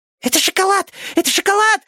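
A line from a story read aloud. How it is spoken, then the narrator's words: Hamster squeaking. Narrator (Russian): запищал хомяк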